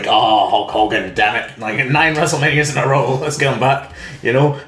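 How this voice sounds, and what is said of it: Imitates another person's voice. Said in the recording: “That was a terrible impression.”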